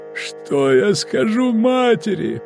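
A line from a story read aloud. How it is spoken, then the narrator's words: Moaning. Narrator (Russian): простонал он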